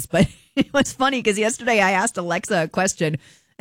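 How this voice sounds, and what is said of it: Sick, strained voice. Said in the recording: “You can tell I'm not feeling the greatest. My voice is definitely taking the brunt of whatever this is ... that's because I'm sick”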